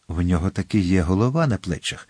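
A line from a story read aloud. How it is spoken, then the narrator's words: Whispering. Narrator (Ukrainian): прошепотів Атос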